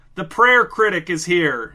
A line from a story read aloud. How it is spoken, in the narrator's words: shouted from the back